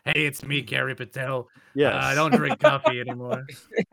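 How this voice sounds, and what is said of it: Imitates another person's voice. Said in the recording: “His Kerry Patel impression is not necessarily ... over the top here.”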